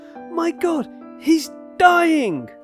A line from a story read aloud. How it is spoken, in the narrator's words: cried Monkhouse Lee distractedly